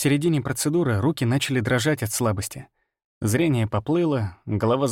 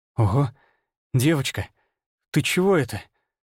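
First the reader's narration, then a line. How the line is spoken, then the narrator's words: Breathless exhale. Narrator (Russian): выдохнул я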